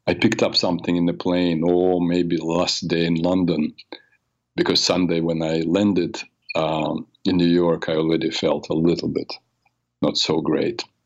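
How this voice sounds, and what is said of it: Raspy voice from a cold. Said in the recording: “I have a cold, so you may hear it. I apologize if my voice is kind of raspy.”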